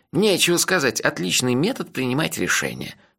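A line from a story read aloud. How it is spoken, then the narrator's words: Grumbling. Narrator (Russian): проворчал он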